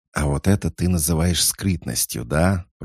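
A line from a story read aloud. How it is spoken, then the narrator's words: Hissing. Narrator (Russian): прошипел безродный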